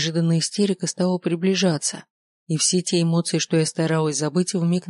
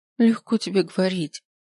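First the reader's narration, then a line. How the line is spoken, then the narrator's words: Sobbing. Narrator (Russian): всхлипнув, сказала я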